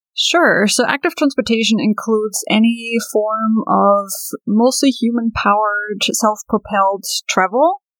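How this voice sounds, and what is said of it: Slight German accent. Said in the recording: “a little twinge of an accent... I don't think you're from Northern Virginia... I am originally from Germany... I love the accent”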